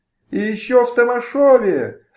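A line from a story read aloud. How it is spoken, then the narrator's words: Wretched shout behind door. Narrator (Russian): закричал из-за двери несчастный Ханон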